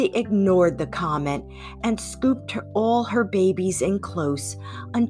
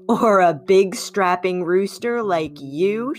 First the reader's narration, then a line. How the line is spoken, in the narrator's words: chuckled lightly